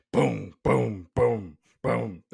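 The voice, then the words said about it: Vocal imitation of a beat. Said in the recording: “That's a pretty good impersonation there.”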